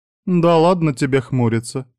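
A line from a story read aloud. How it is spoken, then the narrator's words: Laughing. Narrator (Russian): смеялась Кори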